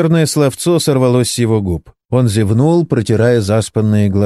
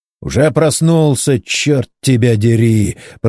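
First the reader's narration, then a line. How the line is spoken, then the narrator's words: Hoarse wheeze. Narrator (Russian): прохрипел инженер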